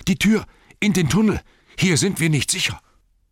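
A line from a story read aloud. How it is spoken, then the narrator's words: Panting call. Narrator (German): rief er keuchend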